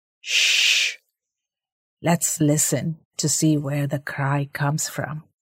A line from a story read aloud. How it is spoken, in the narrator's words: Viren whispered back